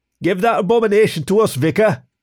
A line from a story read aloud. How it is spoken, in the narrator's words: one of them shouts